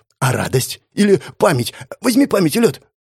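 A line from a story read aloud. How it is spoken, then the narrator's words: Stammering, rapid, crippled man. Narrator (Russian): Запинаясь, зачастил калека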